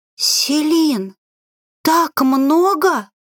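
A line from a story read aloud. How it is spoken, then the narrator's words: Hoarse whisper. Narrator (Russian): сиплым голосом прошептала Аги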